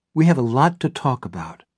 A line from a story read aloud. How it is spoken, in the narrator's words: Barbara says in a dignified tone of voice